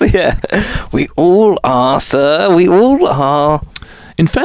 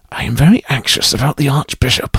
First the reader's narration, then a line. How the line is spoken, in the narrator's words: Edward kept muttering